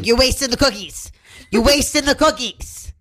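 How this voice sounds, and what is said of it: Loud imitation of a mother. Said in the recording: “when you imitate your mom ... It's just so loud.”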